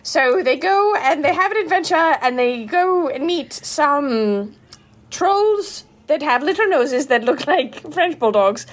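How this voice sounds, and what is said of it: Put-on accent. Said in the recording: “I'm really into your accent. It sounds so good.”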